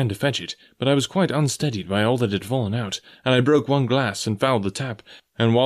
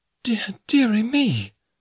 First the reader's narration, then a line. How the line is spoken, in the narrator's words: cried my mother